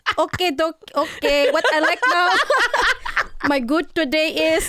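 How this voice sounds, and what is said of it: Put-on Filipino accent, sounds Indian. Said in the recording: “my Filipino accent is coming out ... Not gonna lie, that sounded kind of Indian.”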